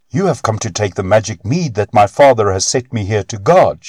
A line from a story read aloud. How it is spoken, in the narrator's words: she cried